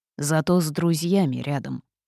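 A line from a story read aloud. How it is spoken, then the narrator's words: Snorting toad. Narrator (Russian): хмыкнула жаба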